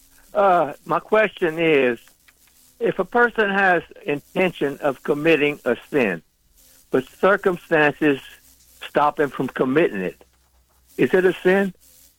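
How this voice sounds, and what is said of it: South Louisiana accent. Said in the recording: “do I hear Lafayette or Crowley in your accent? ... Lafayette, Bill Flat, Louisiana.”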